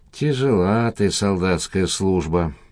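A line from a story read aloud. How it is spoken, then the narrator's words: Mutter. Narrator (Russian): пробормотал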